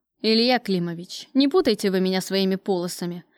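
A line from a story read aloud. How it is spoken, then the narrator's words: Irritated, curt. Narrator (Russian): раздраженно бросил Кравцов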